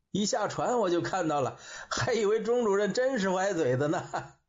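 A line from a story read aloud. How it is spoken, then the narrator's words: Laughing. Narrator (Chinese): 文涛也笑着说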